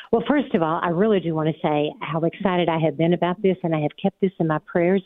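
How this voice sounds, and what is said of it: Southern US accent, Smoky Mountains. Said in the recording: “as you might be able to tell, Patrick, from my accent, I am from the South. I am from the Smoky Mountains”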